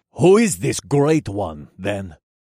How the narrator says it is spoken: He asked in a gruff voice

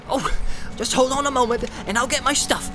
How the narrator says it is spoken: cried Sam eagerly

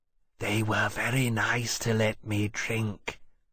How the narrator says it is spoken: Temeraire said, almost whispering

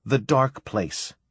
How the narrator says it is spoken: she said

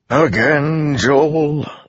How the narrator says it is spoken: Layton asked, sighing

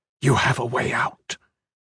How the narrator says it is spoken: the dead man whispered

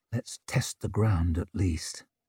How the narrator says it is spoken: he murmured

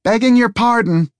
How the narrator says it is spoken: she half shouted at him

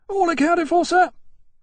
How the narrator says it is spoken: Ferris yelled from farther along Temeraire's back

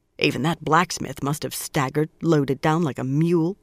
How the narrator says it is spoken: Swan muttered

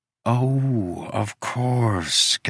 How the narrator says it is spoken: Geffen sighed

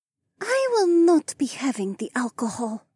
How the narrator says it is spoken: Adhara whispered

